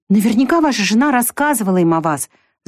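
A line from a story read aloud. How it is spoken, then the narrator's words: Fervent exclamation. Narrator (Russian): с жаром воскликнула Вика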